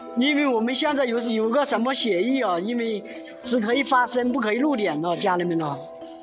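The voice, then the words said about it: Jiangxi-accented Mandarin. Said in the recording (Chinese): “我的口音也是江西人了”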